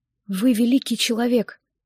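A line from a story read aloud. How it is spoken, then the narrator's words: Whisper. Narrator (Russian): прошептала я ему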